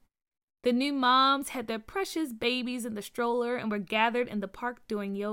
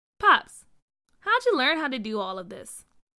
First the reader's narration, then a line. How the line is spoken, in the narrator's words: Carr asked